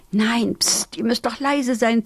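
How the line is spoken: Hiss. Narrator (German): zischte Piri

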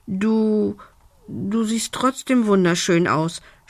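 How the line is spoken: Embarrassed stammering. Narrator (German): stotterte Lumbi verlegen

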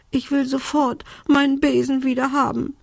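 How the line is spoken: Sobbing. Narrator (German): schluchzte Belinda

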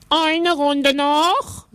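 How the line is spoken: Ringmaster calling out. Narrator (German): rief der Zirkusdirektor

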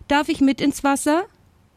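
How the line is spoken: Calling out. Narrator (German): rief

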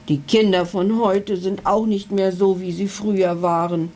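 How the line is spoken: Unintelligible growl. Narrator (German): knurrte unverständlich

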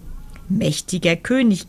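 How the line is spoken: Croaked. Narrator (German): krächzte er

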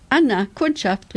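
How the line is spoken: Loud call. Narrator (German): rief laut

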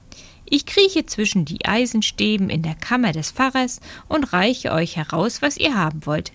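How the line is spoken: Plain. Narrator (German): sagte Daumistik

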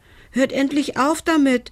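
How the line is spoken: Called out. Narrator (German): rief er

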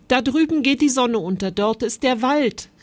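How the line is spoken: Called out. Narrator (German): rief

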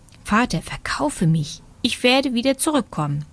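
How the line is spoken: Whisper. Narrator (German): Daumistik kletterte, als er von dem Handel gehört hatte, auf die Schulter seines Vaters und flüsterte ihm zu

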